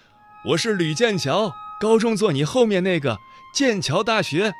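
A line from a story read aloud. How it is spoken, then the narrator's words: Man shouting loudly. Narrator (Chinese): 男人大声喊道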